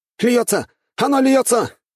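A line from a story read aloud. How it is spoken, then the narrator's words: Shouting warrior. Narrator (Russian): кричал воин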